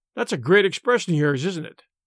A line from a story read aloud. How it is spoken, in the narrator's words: cried Tom sharply